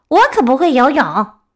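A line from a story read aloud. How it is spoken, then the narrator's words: Fox crying out. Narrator (Chinese): 狐狸叫道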